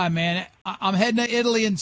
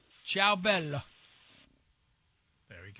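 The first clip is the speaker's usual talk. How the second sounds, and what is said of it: Put-on Italian accent. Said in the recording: “I immediately slide right into the Italian accent.”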